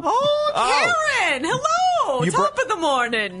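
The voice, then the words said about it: Put-on Irish accent. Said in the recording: “You brought your Irish accent to the party.”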